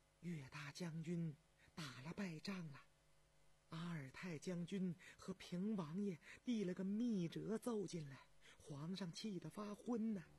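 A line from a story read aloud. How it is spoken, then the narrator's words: Hushed whisper. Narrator (Chinese): 他压低了嗓门对张廷玉耳语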